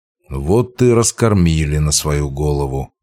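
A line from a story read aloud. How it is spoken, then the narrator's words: Grumbling. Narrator (Russian): проворчал я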